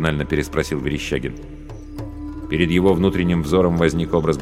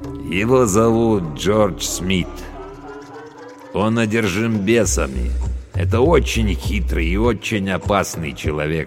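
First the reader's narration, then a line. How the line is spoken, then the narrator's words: Plain. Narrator (Russian): сказал Абдулла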